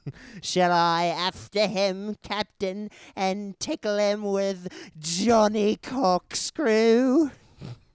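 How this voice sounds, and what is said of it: Smee character voice. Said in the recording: “my Smee voice”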